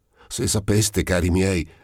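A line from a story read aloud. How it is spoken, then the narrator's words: Cheerful, panting exclamation. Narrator (Italian): esclamò il Mendola smontando ilare e ansimante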